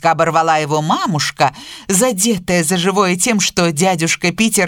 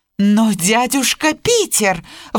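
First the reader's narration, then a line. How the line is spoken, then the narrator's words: Women exclaiming together. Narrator (Russian): воскликнули женщины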